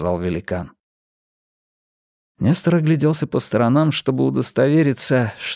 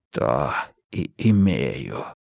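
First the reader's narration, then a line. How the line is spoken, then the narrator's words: Giant's hiss. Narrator (Russian): прошипел великан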